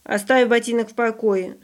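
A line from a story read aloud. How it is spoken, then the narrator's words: Stern. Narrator (Russian): строго сказал Яночка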